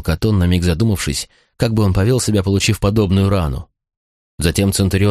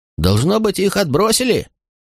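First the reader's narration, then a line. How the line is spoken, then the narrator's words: Soldier shouting. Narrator (Russian): крикнул кто-то из бойцов Катона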